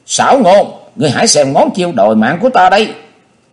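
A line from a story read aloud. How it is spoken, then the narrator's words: Shrieking. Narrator (Vietnamese): Quyết Lan đồng tử thét lên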